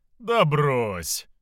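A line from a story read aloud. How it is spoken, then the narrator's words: Laughing king. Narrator (Russian): рассмеялся монарх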